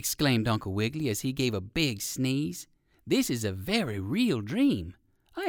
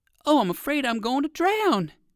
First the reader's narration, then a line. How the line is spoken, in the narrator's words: he cried